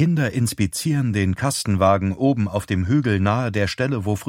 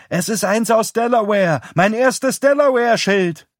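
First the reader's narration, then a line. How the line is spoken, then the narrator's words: Call. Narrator (German): ruft Mary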